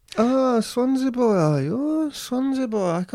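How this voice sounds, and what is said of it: Put-on South Wales accent, Italian-sounding. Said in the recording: “practicing his South Wales accent, which actually sounds a bit more like somebody Italian, maybe”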